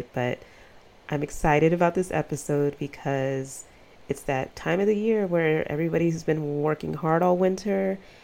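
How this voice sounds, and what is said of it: Deep, sick-sounding voice. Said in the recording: “I was sick all weekend long and sound like utter ass... I sound like a man”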